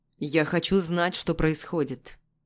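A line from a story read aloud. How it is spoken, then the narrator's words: Serious tone. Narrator (Russian): говорит серьезным тоном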